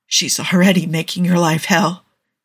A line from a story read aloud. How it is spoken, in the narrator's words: Andy croaks